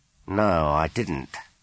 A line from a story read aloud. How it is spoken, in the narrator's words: said Carl